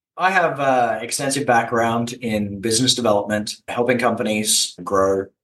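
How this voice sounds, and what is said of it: Australian accent. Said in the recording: “in Australia originally. That's where the accent's from.”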